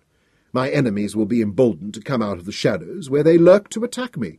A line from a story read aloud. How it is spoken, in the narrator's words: cried Lord Intef, in vehement protest